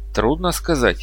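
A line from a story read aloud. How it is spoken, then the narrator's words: Grumbling. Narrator (Russian): проворчал я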